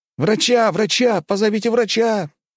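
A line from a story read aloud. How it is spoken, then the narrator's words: Boy's exclamation. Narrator (Russian): воскликнул паренек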